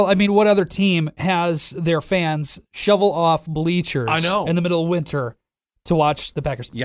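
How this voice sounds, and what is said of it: Usual voice. Nothing is said of it.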